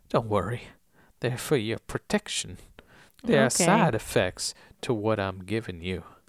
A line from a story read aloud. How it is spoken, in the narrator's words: He says in a soft southern voice